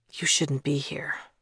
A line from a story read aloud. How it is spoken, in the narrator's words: Thomas whispered